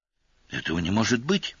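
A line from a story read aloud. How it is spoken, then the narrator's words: Whisper. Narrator (Russian): прошептала Кана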